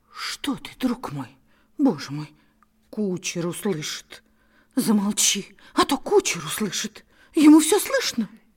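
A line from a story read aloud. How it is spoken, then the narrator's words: Terrified whisper. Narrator (Russian): испуганно поводила своими глазками, всплескивала ручками и шептала в ужасе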